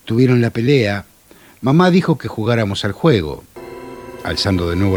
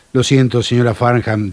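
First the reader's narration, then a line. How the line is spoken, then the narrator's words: Plain. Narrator (Spanish): dijo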